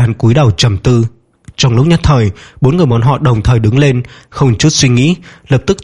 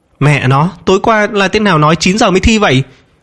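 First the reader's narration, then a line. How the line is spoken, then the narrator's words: Loud shout. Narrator (Vietnamese): Dương Minh lớn tiếng giống lên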